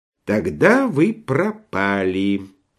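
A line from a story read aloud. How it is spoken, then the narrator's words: Thoughtful. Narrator (Russian): задумчиво произнес Швейк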